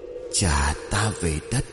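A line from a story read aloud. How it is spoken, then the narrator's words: Eerie moaning voice. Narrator (Vietnamese): Sau lưng trong làn sương mù dày đặc, tiếng rên rỉ lại vang lên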